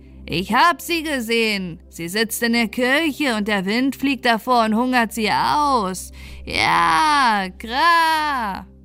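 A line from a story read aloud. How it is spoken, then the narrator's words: Bird calling out. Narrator (German): rief der Vogel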